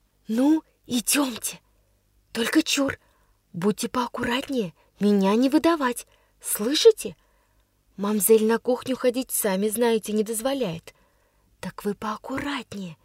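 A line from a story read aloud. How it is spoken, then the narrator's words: Cheerful whisper. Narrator (Russian): весело шептала Дуняша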